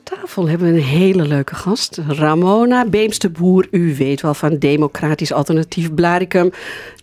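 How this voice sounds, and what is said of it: Put-on eastern Dutch accent. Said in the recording (Dutch): “Waarom ga je nou met een Oosters accent praten?”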